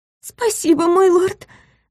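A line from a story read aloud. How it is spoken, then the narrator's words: Trembling whisper. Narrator (Russian): дрожащим голосом прошептала девушка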